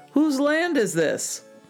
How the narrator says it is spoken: the king called out

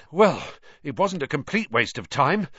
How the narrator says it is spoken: Ron panted

